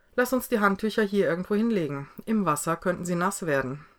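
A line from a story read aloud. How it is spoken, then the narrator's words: Laughing. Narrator (German): fügte sie lachend hinzu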